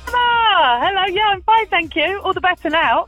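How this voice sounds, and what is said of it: Chirpy, cheerful voice. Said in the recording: “you sound like a chirpy person.”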